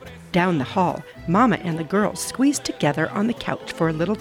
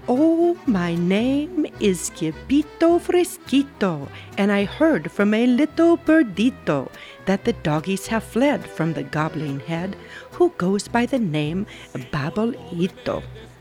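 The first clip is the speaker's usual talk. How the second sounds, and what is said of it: Put-on Spanish accent, singing. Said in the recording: “using his very best Spanish accent, he began to sing”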